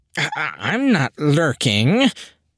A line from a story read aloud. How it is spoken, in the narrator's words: the darkness sputtered